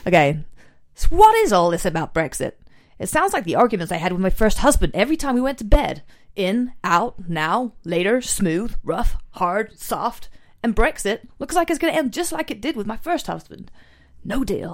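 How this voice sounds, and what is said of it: Attempted American accent. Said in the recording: “Do I have to do it in an American accent? Yeah, because I can't really do an American accent, but I can try ... I'm from America.”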